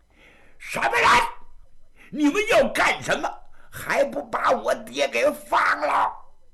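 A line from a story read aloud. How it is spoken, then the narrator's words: Roaring. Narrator (Chinese): 八人大吼了一声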